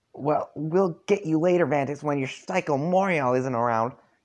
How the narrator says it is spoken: Darnak shouts at you

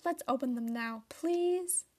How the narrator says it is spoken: Elena exclaimed

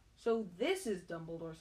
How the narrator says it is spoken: said Harry

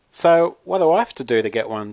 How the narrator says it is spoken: Jason asked excitedly

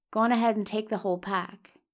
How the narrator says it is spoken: says

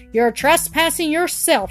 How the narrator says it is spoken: she screamed

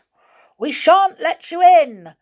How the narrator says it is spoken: yelled Joe

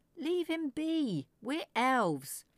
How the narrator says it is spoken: Father Topu was now shouting

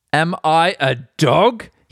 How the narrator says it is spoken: he roared at David

